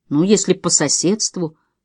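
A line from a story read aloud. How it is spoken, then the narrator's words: Mumbled. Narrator (Russian): промямлил Шон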